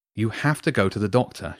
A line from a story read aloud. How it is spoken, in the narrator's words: said firmly